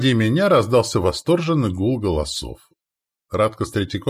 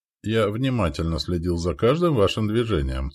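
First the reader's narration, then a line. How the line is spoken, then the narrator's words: Calm reply. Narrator (Russian): спокойно ответил Валибор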